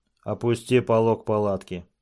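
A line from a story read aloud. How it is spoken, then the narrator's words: Plain. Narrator (Russian): сказал Такеита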